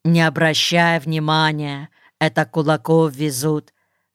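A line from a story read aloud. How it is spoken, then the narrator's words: Calm unperturbed voice. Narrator (Russian): сказал Шура невозмутимым голосом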